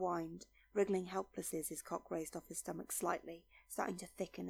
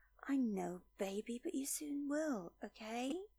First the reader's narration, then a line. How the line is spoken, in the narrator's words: She said sweetly